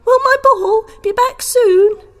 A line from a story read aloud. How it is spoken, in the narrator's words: Sebastian yelled